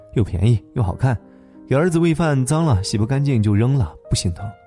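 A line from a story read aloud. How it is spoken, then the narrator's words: Laughing speech. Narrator (Chinese): 他笑着说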